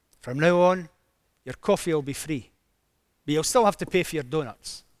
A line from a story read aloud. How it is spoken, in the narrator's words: Harry said gruffly